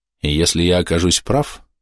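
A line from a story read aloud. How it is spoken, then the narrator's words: Calm. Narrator (Russian): спокойно сказал я им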